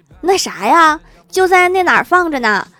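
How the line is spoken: Mother shouting. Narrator (Chinese): 老妈又喊

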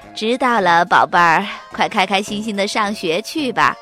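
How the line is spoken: Smiling mother. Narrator (Chinese): 妈妈笑盈盈地说

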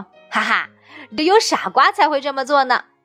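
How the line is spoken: Mocking. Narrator (Chinese): 哥哥们在一旁取笑说

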